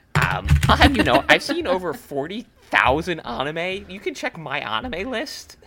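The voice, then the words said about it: Nerdy internet-commenter character voice. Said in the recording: “I like your Redditor voice... mine is the anime”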